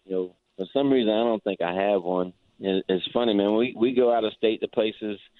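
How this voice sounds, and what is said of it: Strong regional accent, hard to understand. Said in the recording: “some people say they have a hard time understanding Tofield ... the accent my husband has”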